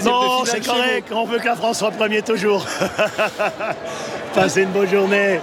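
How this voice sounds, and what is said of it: French with near-American accent. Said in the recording (French): “avec son accent presque américain, hein, puisque comme beaucoup de Français qui vivent ici, ils perdent parfois leur accent français et puis se mettent à parler comme des Américains”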